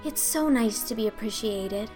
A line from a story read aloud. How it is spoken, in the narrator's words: sighed Anne rapturously